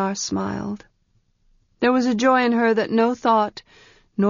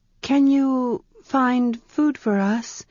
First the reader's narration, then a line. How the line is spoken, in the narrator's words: asked, rather vaguely and timidly